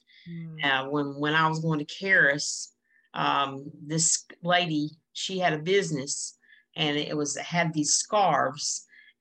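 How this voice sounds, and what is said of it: North Carolina Southern accent. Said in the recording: “I guess I have that North Carolina accent”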